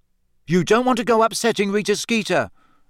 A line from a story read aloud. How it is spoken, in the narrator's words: said Ron nervously